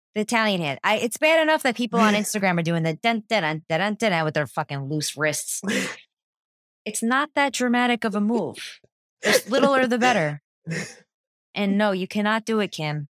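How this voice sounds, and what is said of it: Strong New Jersey accent. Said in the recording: “Listen to how my Jersey accent's coming out right now.”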